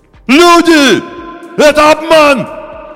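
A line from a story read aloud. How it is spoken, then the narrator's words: Desperate shout. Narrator (Russian): Закричал кто-то отчаянно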